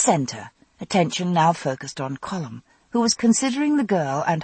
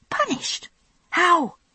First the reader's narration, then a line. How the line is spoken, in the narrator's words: I hissed, as quietly as I could